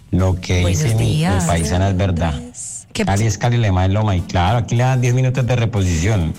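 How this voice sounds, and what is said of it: Lovely Colombian Cali accent. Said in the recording (Spanish): “acento tan lindo”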